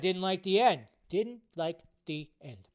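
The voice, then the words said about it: Donald Trump impression. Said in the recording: “my stupid Donald Trump impression”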